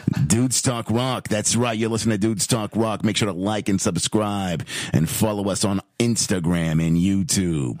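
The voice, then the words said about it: Announcer-style radio voice. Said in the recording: “I don't want your boring voice. Do your radio voice”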